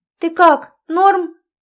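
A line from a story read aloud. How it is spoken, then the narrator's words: Ringing shout. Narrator (Russian): звенящим голосом крикнула Катя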